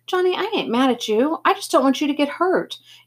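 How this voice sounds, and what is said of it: Pleading high-pitched voice. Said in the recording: “in this pleading high voice, using a tone I'd never heard from him before”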